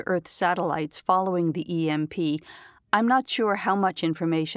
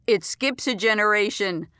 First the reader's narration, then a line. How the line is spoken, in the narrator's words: Dad shouted from the kitchen